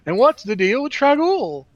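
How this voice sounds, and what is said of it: Jerry Seinfeld impression. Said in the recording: “I sound like Jerry Seinfeld... terrible Jerry Seinfeld impression”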